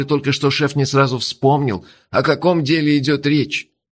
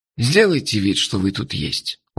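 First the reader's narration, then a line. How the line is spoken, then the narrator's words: Tired, smiling. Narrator (Russian): устало улыбнулся он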